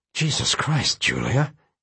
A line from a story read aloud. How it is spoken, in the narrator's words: he said under his breath, though he said it to himself more than to her